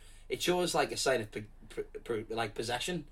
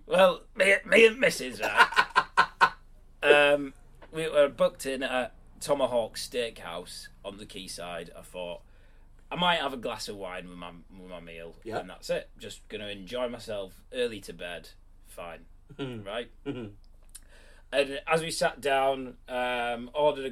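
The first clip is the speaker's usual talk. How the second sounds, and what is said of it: Put-on blokey working-class man voice. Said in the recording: “Me and wife. Me and the missus. But those are definitely the type of blokes that people are offended by. So as soon as you put on that voice”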